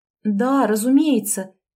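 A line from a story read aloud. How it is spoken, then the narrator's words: Breathy. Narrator (Russian): выдохнула Елизавета Андреевна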